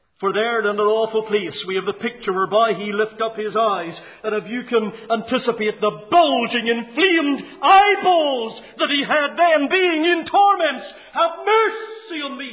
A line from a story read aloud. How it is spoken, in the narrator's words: he cries